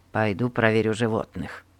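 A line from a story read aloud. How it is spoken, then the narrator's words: Muttering. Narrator (Russian): пробормотал он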